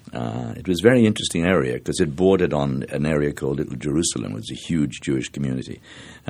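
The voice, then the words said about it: Mid-Atlantic accent, not Irish-sounding. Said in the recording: “people often mistake us for Canadian, or they say, where did you get that mid-Atlantic accent? ... you don't sound Irish”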